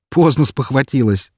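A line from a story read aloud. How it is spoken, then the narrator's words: Laughing. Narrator (Russian): рассмеялся я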